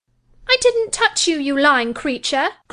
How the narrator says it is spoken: cried she, her ears red with rage

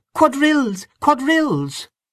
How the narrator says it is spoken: A red-faced young woman, dressed in pansy, came into the room excitedly clapping her hands and crying

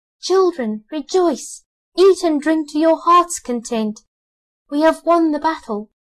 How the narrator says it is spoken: the king and queen flew home to their children and cried

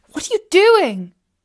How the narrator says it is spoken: cried out Katie in dismay

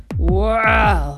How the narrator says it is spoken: growled Anubis

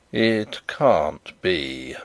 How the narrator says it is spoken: muttered Sydney Carton retrospectively

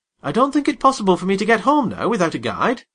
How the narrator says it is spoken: I could not help exclaiming

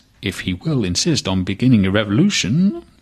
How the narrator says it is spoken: murmured the assistant commissioner

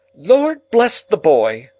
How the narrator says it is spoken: exclaimed my sister, as if she didn't quite mean that, but rather the contrary

